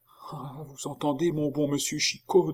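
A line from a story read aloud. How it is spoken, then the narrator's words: Monk speaking softly. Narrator (French): dit tout bas le moine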